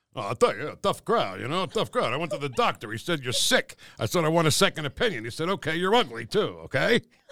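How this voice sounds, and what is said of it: Imitates another person's voice. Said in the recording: “my favorite one to do is not political at all. It's Rodney Dangerfield”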